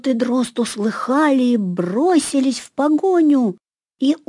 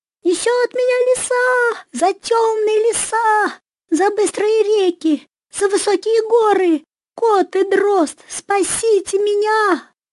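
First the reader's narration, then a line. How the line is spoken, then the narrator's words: Rooster crying out. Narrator (Russian): Закричал петушок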